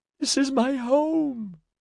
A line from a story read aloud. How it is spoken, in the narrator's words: wailed